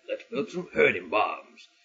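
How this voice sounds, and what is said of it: Generic tough movie-character accent. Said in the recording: “my generic guy from the Rocky films accent”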